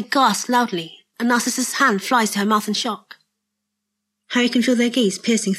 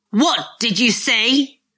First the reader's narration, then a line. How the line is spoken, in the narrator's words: Lucius shouts